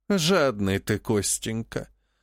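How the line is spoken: Sigh. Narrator (Russian): вздохнула Живетева

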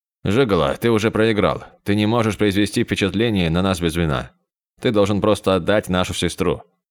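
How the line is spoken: Disappointed sigh. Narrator (Russian): разочарованно вздохнул Оуину

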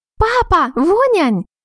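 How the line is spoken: Loud child's shout. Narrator (Russian): громко закричала малышка

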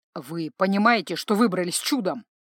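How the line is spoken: Angry question. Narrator (Russian): зло спросил Ардарион

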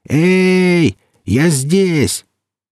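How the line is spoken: Shouting as loud as possible. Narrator (Russian): Лембоев закричал как мог громче

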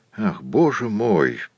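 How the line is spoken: Whispered. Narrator (Russian): шепнул Тугай

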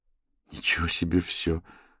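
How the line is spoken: Muttered. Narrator (Russian): пробормотала Маня

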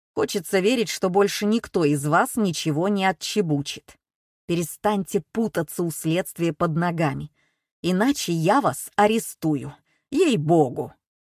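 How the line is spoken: Grumbling. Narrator (Russian): Он побурчал еще немного

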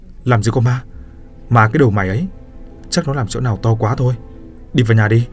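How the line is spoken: Scolding shout. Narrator (Vietnamese): Lão Kha quát

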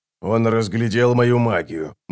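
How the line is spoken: Grumbled. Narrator (Russian): буркнул Оцелот

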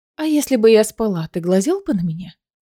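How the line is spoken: Insinuating question. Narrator (Russian): вкрадчиво спросила

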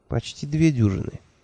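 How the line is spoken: Gentle correction. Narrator (Russian): мягко поправила Хейлах

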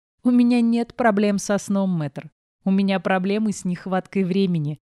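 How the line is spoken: Laughing. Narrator (Russian): рассмеялась я

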